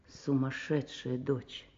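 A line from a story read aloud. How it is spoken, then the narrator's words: Quiet. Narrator (Russian): Он тихо сказал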